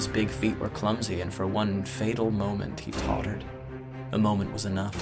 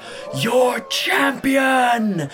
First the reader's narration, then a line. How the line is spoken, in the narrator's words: screamed